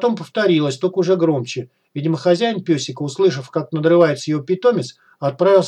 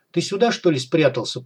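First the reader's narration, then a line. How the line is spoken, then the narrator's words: Mutter, master. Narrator (Russian): пробормотал хозяин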